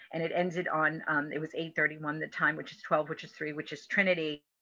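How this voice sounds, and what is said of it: Reading aloud very quickly. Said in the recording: “I read that really quickly.”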